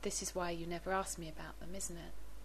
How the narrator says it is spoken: He said gently

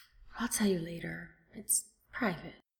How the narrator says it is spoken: Steed finally gives a deep, beleaguered sigh and says

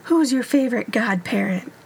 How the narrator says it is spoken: he cooed

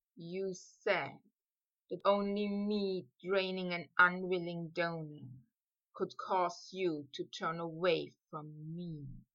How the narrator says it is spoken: he whispered

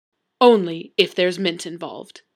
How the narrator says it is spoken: said gravely

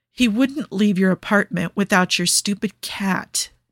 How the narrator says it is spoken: Niall says, choked

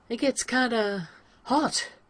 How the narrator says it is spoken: Rodney says, and then clears his throat, to try and clear whatever made his voice catch

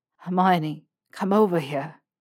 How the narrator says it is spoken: he panted

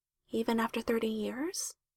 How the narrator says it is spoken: She asked quietly

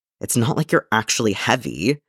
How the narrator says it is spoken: Padawan Kenobi muttered mutinously

